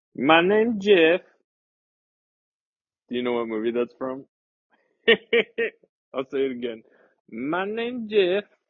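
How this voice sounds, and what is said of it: Put-on movie character accent. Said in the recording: “comes with the accent”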